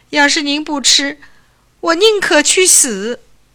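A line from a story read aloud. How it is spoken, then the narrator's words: Crying young man. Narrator (Chinese): 青年…哭起来了，说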